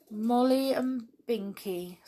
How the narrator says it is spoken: said Peter sadly

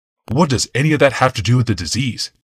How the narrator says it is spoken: Yawmoth asked testily

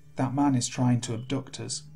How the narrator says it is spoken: said very, very quietly

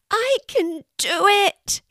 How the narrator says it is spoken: he cried

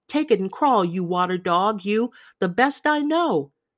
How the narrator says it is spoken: some shouted

